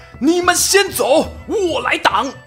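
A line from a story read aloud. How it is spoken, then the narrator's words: Bold shout. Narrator (Chinese): 郝萌，学着张辽对友军大喊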